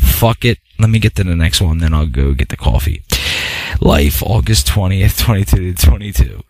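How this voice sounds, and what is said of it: Usual voice. Nothing is said of it.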